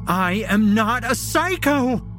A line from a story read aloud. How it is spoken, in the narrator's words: She screams